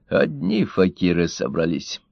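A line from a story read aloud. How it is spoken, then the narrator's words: Grumbling. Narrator (Russian): проворчал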